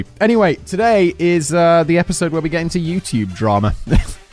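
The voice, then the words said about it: Nasal, congested voice. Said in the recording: “my voice sounds a little bit nasal. It's spring ... You got now hay fever.”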